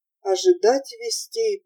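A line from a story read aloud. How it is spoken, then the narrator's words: Moaned. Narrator (Russian): простонал доктор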